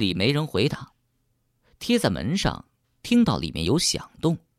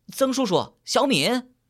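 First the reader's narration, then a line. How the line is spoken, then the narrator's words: Loud calling. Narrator (Chinese): 潘天棒则在背后大声喊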